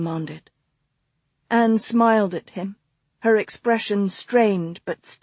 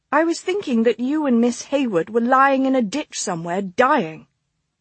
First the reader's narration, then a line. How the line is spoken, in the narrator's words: Anne snapped with a disgusted shake of her head